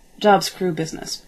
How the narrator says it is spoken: he said

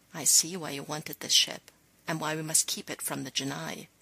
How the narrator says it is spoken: Tayla whispered

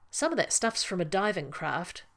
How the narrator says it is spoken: John said

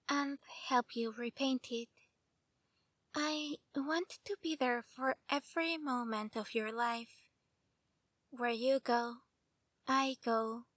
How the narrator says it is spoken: said softly

